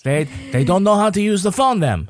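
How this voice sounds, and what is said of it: Put-on French-Canadian accent. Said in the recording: “That is the west side of Manchester French-Canadian accent, not the actual French-Canadian accent.”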